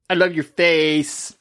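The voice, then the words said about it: Stereotyped gay man voice impression. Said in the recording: “That was my gay impression. ... I'm just impersonating what he sounded like.”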